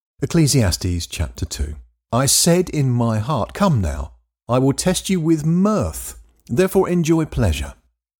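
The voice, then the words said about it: English accent. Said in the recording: “in an English accent”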